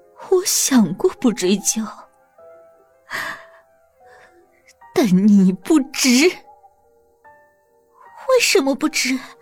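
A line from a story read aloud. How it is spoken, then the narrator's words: Pleading, suppressed anger. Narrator (Chinese): 即使再愤怒，也要强咽下去，哀求对方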